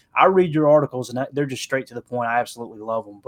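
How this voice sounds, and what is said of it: Strong regional accent. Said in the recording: “People hear my accent and they go, "That guy is not educated,"”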